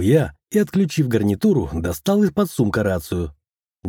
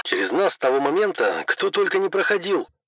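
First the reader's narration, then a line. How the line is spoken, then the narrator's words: Displeased grumble. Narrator (Russian): недовольно пробурчал пчеловод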